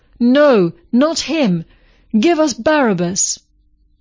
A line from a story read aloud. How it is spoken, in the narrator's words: They shouted back